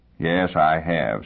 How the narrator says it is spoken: said George bitterly

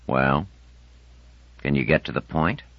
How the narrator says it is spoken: Pitt, who made no effort to seem devouringly interested, sighed and said

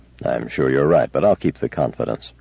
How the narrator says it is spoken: said Bailey gravely

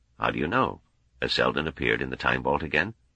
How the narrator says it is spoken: said softly

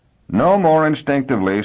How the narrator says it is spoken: said her husband wearily

